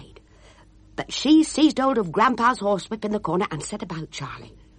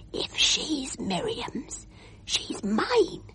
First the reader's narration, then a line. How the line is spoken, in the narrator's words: as you do hear a whisper